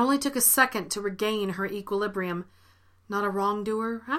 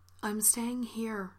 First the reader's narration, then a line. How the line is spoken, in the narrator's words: she said gently